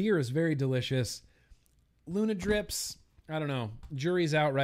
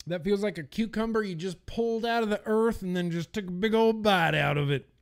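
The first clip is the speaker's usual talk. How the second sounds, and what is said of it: Put-on Southern accent. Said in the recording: “I'm not sure what was with that southern accent ... It's just where my voice went.”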